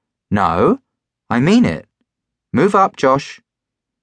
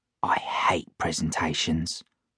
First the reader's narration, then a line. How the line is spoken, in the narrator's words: I whispered to Warren